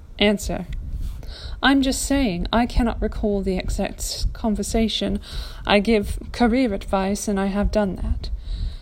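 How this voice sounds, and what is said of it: Put-on accent while reading. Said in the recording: “I don't know why I'm losing the accent.”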